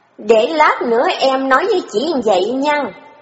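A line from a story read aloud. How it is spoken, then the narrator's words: Threatening tone. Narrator (Vietnamese): Nhạn lên giọng đe dọa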